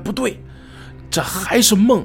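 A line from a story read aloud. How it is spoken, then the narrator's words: Loud self-assurance. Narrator (Chinese): 他好像在做自我暗示一样，大声的喊出来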